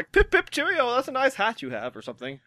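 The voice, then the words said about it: Bad posh British accent. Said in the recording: “the worst British accent since Dick Van Dyke ... It's up there ... more of a posh British accent than Cockney”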